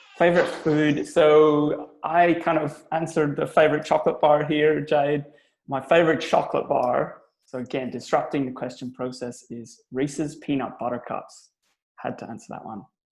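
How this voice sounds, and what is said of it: Mixed Belfast Irish and Australian accent. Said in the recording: “the accent. Where's the accent from? ... So I'm Irish. I'm from Belfast. I'm a Belfast boy. But I've been in Australia now for over 16 years, nearly 18 years now. So it's a bit of a mix.”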